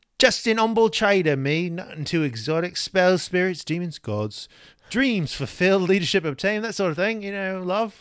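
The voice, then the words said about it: Accented character voice, Jack Sparrow-like. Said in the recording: “I love their accent. ... You turn them a little Captain Jack Sparrow.”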